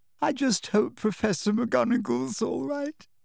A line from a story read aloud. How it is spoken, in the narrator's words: said Lavender tearfully